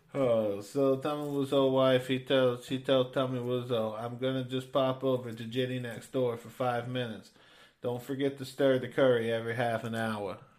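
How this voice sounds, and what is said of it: Put-on accent. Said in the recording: “That's how I keep this accent.”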